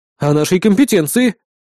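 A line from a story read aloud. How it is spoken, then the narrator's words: Chuckling. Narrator (Russian): хохотнул я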